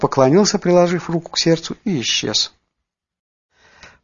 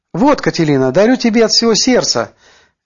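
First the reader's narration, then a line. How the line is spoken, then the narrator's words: Cheerful shout. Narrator (Russian): весело крикнул он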